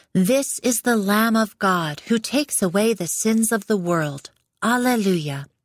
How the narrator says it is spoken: John the Baptist saw him and cried out

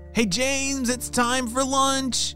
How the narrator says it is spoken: shouted his parents

